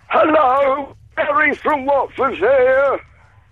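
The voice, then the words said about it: Imitates a comedy character's voice. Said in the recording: “my Barry from Watford impression”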